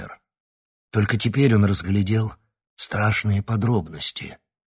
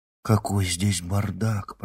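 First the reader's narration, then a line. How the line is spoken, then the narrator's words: Whispered. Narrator (Russian): прошептала Ксения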